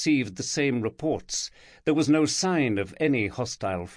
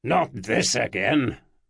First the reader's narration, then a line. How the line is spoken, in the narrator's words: barked